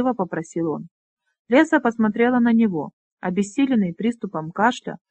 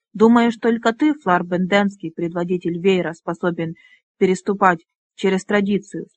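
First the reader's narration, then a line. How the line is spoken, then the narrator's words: Plain. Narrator (Russian): спросила она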